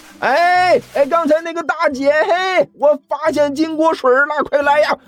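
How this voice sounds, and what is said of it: Loud shouting call. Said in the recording (Chinese): “对着刚才玛丽离开的方向大吼了一声”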